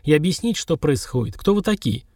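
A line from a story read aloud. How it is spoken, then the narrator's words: Grim speech. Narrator (Russian): мрачно сказал Сергар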